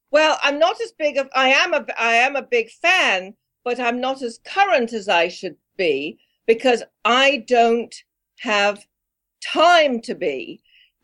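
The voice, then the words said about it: English accent. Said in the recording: “that's an English accent.”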